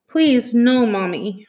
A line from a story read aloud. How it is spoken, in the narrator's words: I cried